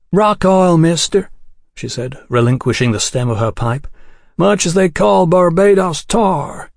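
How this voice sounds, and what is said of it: Drawling, grating put-on accent. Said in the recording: “Her drawling accent grated on the ear”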